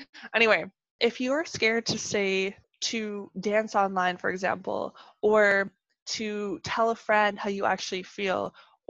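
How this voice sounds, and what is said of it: Canadian accent. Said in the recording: “my Canadian accent”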